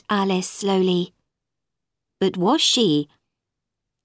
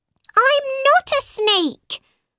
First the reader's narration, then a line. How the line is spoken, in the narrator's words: cried Alice